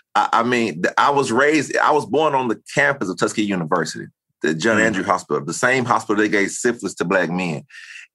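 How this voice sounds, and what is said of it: Southern US accent. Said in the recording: “I can hear it in your voice ... I speak three languages, English, Spanish, and Southern”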